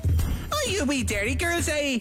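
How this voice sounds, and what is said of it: Put-on Northern Irish accent. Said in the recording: “Do the Northern Ireland accent again ... I think I had a bit of a Northern accent there ... she's from Northern Ireland”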